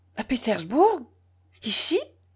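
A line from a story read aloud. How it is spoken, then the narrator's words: Alarmed question. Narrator (French): demanda d'une voix alarmée Dounia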